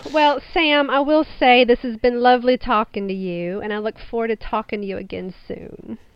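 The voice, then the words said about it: Southern US accent. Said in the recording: “true, genuine Southern accent ... Southern accent”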